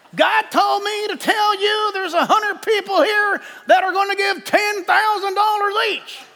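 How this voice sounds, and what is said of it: Put-on Southern preacher accent. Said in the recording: “I don't know why they have to have a southern accent every time I do this.”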